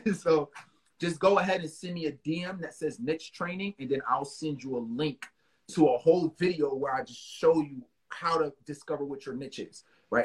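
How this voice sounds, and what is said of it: New York accent. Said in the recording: “I know I got a New York accent”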